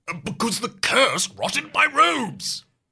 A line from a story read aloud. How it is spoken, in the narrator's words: Merlin snaps